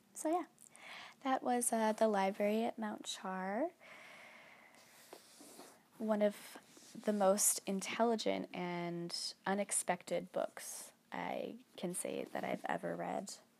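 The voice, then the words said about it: Gravelly, slightly sniffly voice. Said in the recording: “my voice is a little bit gravelly. I think I might be getting a little bit sick. I'm probably also a little bit sniffly.”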